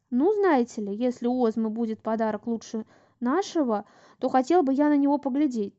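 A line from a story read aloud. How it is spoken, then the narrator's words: Triumphant exclamation. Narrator (Russian): торжествующе воскликнул капитан Билл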